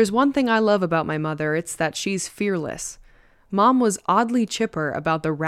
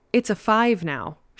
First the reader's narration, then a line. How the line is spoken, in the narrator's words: exclaimed with a ridiculous grin